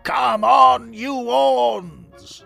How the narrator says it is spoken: He danced round Hornet Heaven, shouting

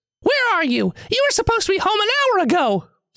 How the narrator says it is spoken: The voice screams on the other end of the line

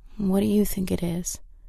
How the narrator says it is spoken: Kristen sighed

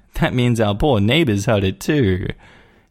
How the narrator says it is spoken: laughed and said

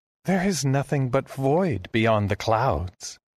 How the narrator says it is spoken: Mayette told me, with a pitying chuckle

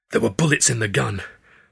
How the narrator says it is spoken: I snarled, still not quite believing it

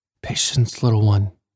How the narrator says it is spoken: he whispered

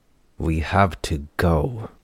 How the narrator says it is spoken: she growled between her teeth

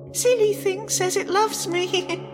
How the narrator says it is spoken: the girl giggles

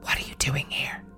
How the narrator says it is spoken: heard a man whisper

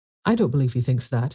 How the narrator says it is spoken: said Mrs

